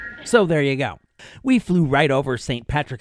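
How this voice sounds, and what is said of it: Usual voice. Nothing is said of it.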